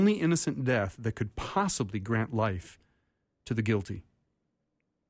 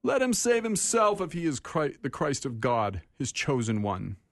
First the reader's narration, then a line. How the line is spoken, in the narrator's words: yell